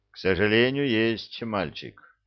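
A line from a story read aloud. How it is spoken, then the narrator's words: Sad sigh, old man. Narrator (Russian): грустно вздохнул старик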